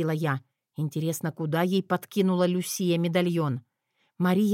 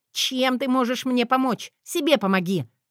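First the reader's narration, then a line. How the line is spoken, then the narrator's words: Barked. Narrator (Russian): рявкнула та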